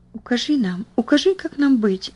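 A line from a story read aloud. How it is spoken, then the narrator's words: Whispering. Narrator (Russian): зашептала Бетси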